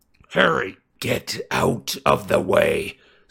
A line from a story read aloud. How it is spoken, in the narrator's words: snarled Sirius